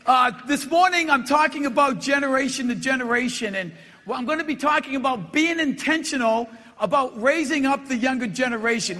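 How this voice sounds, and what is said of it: Boston accent. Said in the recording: “it's Boston City accent”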